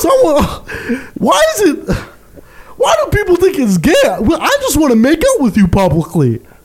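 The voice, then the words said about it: High-pitched imitation of another's voice. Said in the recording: “This is my impersonation of Wally ... his voice is high”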